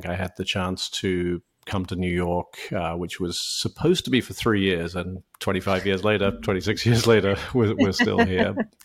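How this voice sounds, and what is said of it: British accent. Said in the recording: “As you can probably tell by my accent, I'm not originally from the U.S. ... I grew up in the U.K.”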